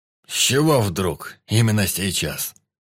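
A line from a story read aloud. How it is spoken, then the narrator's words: Surprised. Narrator (Russian): Удивился генерал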